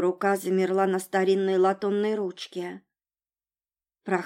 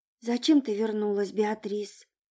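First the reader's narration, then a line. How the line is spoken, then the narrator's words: Whispered to herself. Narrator (Russian): прошептала она сама себе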